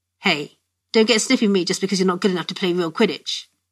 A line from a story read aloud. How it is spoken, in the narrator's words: he growled